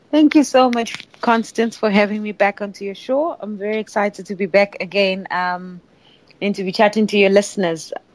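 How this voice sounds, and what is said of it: South African accent. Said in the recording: “I love your accent... Where in South Africa?”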